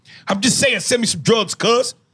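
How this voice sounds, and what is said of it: Put-on LA hood accent. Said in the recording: “I always like when you do the ... LA dude? ... Yeah, the LA. ... God, I'm glad I don't have that accent.”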